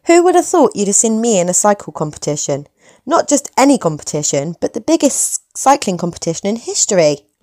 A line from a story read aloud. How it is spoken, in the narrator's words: laughed Nora